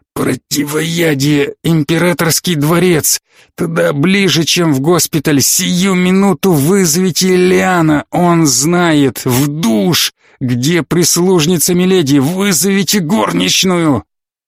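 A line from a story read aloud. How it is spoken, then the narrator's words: Strained out between fits. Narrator (Russian): В промежутках между приступами Фаркасиган выдавил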